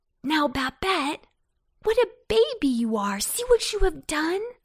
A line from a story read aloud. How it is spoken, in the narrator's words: Antone cried